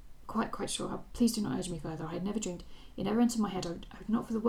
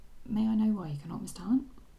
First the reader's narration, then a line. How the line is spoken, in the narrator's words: She was afraid that she was about to burst into tears and answered in a shaken tone